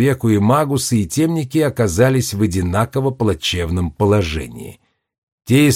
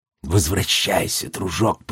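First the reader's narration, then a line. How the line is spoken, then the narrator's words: Whisper. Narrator (Russian): прошептал он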